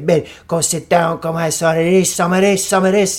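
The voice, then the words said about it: Imitated Italian accent. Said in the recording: “he didn't talk like this. He had the Italian accent.”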